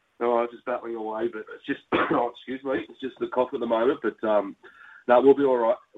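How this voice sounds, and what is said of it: Sick, weird-sounding voice. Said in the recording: “excuse my voice, mate. There's a bit of a bug going around ... if I sound a bit weird”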